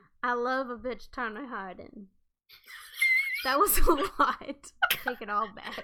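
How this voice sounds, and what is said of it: Slight Creole-sounding accent. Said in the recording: “What was that accent? ... You also sound a little Creole”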